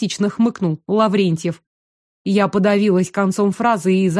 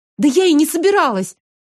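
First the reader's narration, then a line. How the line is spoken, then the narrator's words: Tearful hurt exclamation. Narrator (Russian): Едва сдерживая слезы от обиды, воскликнула я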